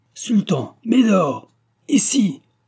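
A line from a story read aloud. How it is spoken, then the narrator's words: Ringing, booming call. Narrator (French): s'exclamait Germain d'une voix éclatante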